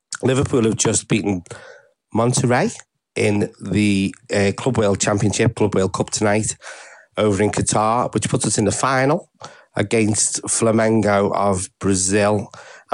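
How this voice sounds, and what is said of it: Congested voice from heavy cold. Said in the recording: “with a heavy cold, so forgive my voice.”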